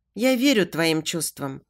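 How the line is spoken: Calm reply. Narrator (Russian): спокойно отвечает

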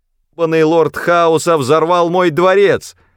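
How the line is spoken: Shouting. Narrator (Russian): кричал Рэндом

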